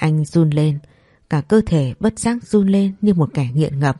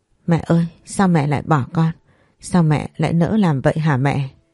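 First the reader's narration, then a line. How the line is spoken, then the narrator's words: Tearful muttering. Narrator (Vietnamese): Nước mắt cứ vậy chảy ra, miệng lẩm bẩm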